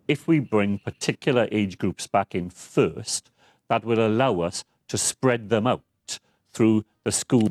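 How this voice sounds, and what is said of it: Welsh accent. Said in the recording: “I do love the Welsh accent”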